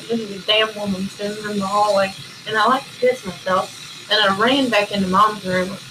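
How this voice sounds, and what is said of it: Strong regional accent. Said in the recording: “your accent, I swear to God ... I haven't lived enough places at that point to flatten it out ... Mine was really bad, too ... I sound like I have a dip in my mouth.”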